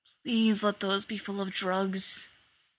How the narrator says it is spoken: he muttered

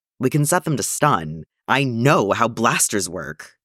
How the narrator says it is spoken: Obi-Wan snapped

